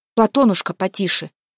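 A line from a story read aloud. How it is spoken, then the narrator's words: Sharp scolding shout. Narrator (Russian): прикрикнула Еленка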